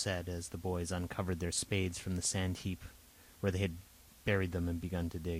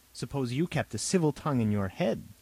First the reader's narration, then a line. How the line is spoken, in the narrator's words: Robert snapped